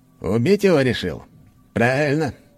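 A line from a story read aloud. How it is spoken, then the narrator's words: Scoffing. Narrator (Russian): хмыкнул граф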